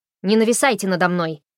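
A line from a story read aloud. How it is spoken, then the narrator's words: Barked. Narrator (Russian): рявкнула она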